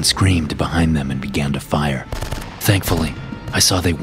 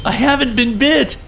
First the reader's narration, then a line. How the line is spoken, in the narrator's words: screamed